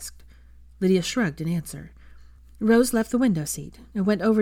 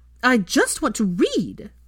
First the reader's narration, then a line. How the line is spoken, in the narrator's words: she shouted at Rose